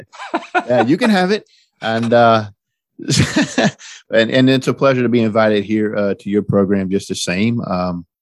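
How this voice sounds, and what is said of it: West Virginia accent. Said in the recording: “People are listening to your accent now. They realize you're not from the New York, New Jersey region. You grew up in West Virginia, and now you live in North Carolina.”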